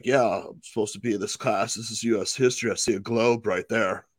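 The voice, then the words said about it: Imitates another person's voice. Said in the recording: “That's a good impression. That's a really good impression. ... An excellent impression.”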